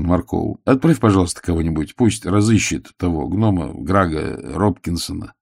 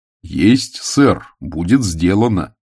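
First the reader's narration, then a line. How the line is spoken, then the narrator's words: Plain. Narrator (Russian): ответил Маркоу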